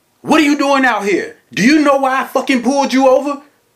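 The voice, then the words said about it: Loud, disrespectful quoted voice. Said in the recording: “loud and disrespectful as can be ... In that same tone of voice”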